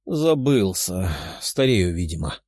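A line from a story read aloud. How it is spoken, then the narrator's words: Sighing. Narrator (Russian): вздохнул император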